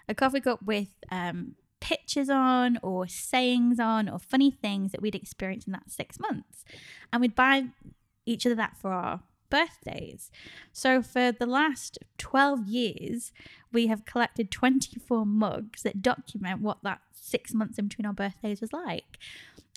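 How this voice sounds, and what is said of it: Northern English accent. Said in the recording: “your northern accent”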